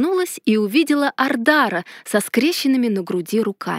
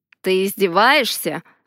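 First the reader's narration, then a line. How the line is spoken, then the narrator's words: Icy question. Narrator (Russian): ледяным голосом спросил Ардар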